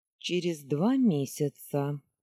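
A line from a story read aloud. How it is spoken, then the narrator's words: Even, level voice. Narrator (Russian): ровным голосом начал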